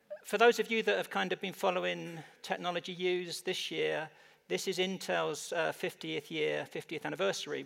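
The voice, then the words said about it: English accent. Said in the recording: “my kind of English accent”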